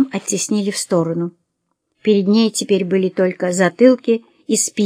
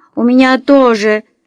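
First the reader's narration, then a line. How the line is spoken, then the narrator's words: Wounded screaming. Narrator (Russian): завопила окровавленная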